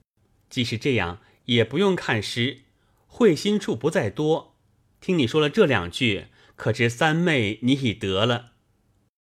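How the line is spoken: Laughing. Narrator (Chinese): 宝玉笑道

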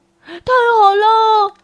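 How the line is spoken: Happy shouting cubs. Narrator (Chinese): 小熊们高兴地叫起来

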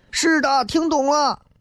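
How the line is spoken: Class shouting together. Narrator (Chinese): 全班都喊

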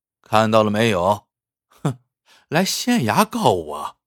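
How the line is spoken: Sneering mockery. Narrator (Chinese): 潘武冷笑着讥讽道

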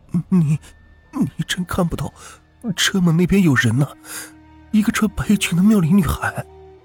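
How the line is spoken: Trembling, frightened voice. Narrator (Chinese): 我惊愕了，声音颤栗的问王阳

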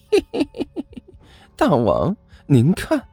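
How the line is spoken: Sly chuckle. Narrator (Chinese): 阿巴嘿嘿一笑

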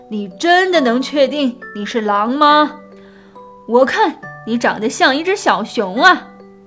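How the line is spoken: Rough, loud voice. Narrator (Chinese): 一个粗暴的声音大声地说

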